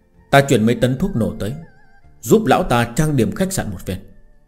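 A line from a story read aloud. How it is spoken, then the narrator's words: Low cold voice. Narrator (Vietnamese): viên cường thấp giọng nói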